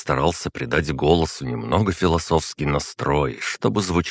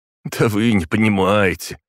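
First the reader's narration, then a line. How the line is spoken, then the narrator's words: Joyless laugh. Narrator (Russian): невесело хохотнул наш друг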